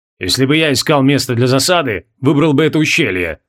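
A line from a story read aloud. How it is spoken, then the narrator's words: Grumbling. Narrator (Russian): продолжал ворчать Баргамис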